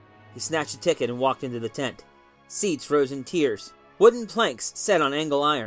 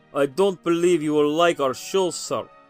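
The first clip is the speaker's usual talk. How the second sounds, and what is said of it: Foreign accent. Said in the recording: “The accent was foreign.”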